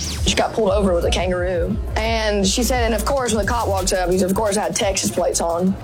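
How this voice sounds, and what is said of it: Thick regional accent. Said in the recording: “That is an accent. ... It really is a thick accent, isn't it? ... Thick air accent.”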